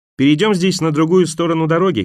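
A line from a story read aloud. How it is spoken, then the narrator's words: Shouted. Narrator (Russian): крикнула она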